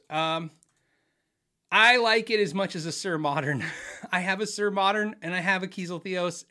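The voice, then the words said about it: Strained, nearly lost voice. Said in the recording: “I lost my voice”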